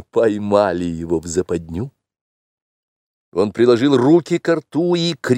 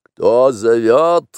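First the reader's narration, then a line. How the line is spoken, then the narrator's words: Barked. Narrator (Russian): рявкнул Шер-Хан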